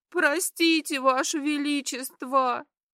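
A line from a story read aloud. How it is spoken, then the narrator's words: Sobbing girl. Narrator (Russian): прорыдала девушка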